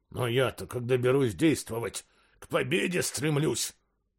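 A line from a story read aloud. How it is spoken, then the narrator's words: Indignant hiss. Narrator (Russian): с возмущением прошипел он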